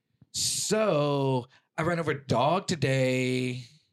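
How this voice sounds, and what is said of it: Imitates another person's voice. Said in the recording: “That was a pretty good fucking impression right there. ... That was a great impression. ... Yeah, that was actually really good.”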